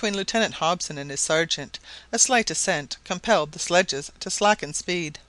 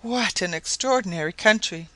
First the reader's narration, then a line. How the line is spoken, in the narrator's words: exclaimed Mrs